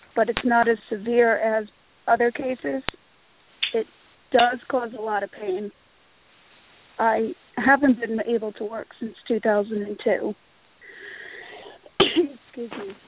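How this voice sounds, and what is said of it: Raspy voice. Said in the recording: “my voice has been pretty raspy.”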